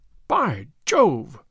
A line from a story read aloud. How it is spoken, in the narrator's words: cried my client